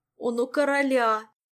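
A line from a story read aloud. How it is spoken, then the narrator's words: Moaning. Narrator (Russian): простонал Жак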